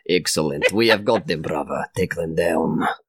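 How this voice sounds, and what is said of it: Put-on Russian accent. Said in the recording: “I speak in a Russian accent”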